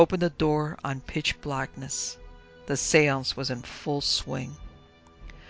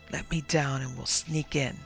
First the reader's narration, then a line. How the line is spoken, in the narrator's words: he whispered